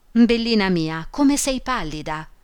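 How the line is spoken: Exclamation. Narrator (Italian): esclamò la baronessa

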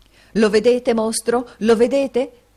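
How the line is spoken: Shouting. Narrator (Italian): gridò il signor Lenville

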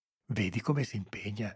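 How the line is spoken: Murmured. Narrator (Italian): sentì mormorare Salvatore

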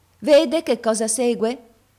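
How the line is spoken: Sour-voiced maid. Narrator (Italian): venne fuori a dire la cameriera con la sua voce agra

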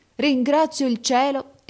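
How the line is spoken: Exclaimed. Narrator (Italian): esclamò

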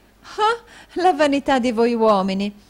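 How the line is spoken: Exclaiming. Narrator (Italian): esclamò la signorina Snevellicci

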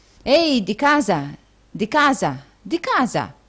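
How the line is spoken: Exclaimed. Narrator (Italian): esclamò il signor Folair

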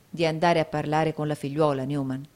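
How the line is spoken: Plain. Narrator (Italian): rispose Nicola

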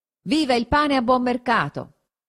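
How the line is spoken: Someone shouting. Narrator (Italian): uno gridò

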